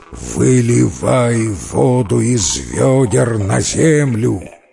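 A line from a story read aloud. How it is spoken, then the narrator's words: Monstrous beastly roar. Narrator (Russian): страшный див, и заревел он звериным голосом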